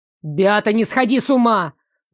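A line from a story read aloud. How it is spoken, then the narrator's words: Barked. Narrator (Russian): рявкнул на меня Нико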